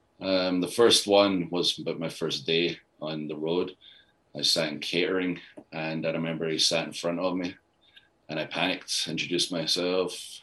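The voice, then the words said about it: Scottish accent. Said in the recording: “my very thick Scottish accent, especially back then”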